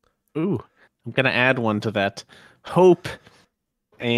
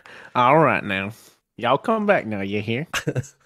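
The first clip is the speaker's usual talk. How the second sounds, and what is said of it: Put-on Texan Alabama Southern accent. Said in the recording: “his Texan Alabama accent”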